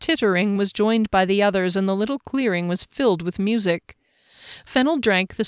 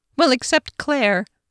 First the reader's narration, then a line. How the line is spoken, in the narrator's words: Nelfurch giggled again